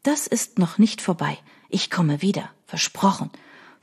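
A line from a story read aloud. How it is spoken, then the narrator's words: Whispering. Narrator (German): flüsterte sie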